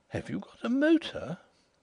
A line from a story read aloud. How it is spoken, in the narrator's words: The astonishment in her tone as she exclaimed